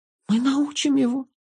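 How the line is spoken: Whispering. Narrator (Russian): шепнул Джонни

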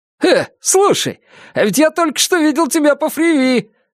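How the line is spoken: Exclaimed. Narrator (Russian): воскликнул таксист

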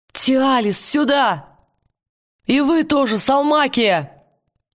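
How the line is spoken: Shout. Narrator (Russian): Уилл крикнув

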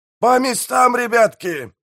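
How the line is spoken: Yelling pirate mayor. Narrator (Russian): заорал пиратский мэр

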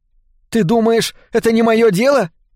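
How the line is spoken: Shouting. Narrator (Russian): крикнула мама

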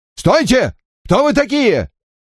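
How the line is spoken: Shouting. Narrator (Russian): выкрикнул

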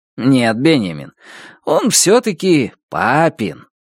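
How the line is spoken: Laughing, forcedly calm. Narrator (Russian): Он снова рассмеялся, стараясь оставаться максимально спокойным

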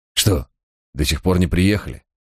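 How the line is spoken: Calm, suppressed pain and rage. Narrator (Russian): Голос его звучал спокойно и ровно, но чувствовалось, что он едва сдерживает боль и ярость

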